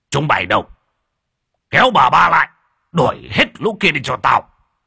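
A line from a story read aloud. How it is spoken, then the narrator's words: Angry roar. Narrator (Vietnamese): Lão Bàng mới tức giận mà gầm lên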